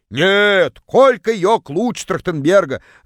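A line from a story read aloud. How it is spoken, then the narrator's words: Distant yell. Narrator (Russian): Заорала одна из них из самого дальнего угла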